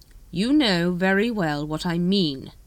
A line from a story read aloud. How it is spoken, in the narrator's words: said Veterinari sharply